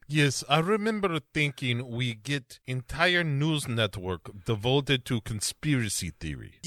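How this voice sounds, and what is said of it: Put-on Russian accent. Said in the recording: “You're a charismatic leader with the screaming and the yelling and the Russian accent.”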